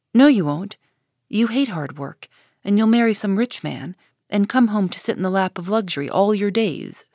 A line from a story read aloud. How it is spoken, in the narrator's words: said Jo